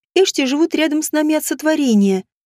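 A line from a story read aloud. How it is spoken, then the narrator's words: Soft explanation, young woman. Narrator (Russian): мягко пояснила девушка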